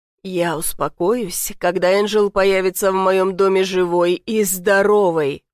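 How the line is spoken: Growled. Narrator (Russian): прорычал

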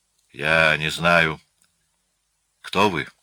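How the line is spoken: Hoarse, breathless, distant voice. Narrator (Russian): раздался в глубине комнаты хриплый, задыхающийся голос

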